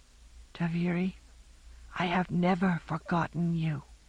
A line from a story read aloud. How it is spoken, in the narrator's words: whispered